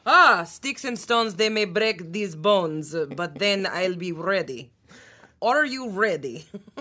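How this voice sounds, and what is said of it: Put-on Russian accent. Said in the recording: “And finally, Russian. ... You're so good at accents. ... I don't know about my Russian. ... Your Russian was great.”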